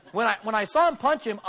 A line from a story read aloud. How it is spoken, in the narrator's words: I yelled